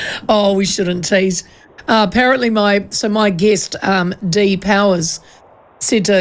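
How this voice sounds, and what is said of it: Usual voice. Nothing is said of it.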